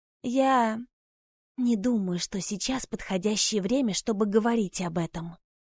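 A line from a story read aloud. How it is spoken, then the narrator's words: Whispered. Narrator (Russian): прошептала она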